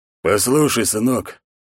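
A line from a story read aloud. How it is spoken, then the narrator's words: Hoarse, quiet, grating voice. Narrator (Russian): хриплый тихлый голос Урана неприятно шкребал слух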